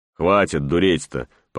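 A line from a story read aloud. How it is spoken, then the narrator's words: Grumbling, elder's authority. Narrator (Russian): по праву старшего заворчал я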